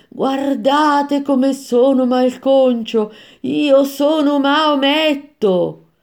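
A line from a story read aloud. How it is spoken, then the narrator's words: Shouted. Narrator (Italian): Uno di loro, con il corpo aperto in due, gridò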